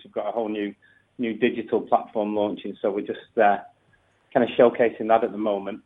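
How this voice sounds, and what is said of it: Northern English accent. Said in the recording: “I'm just picking up your accent there ... I'm from up north. I'm from near Manchester”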